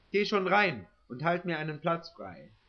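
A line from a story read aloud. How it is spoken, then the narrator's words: Called out. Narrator (German): rief er mir zu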